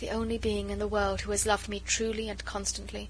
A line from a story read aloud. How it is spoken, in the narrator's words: Her eyes at last grew moist as she murmured half to herself